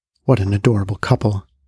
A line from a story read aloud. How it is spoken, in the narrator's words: under their breath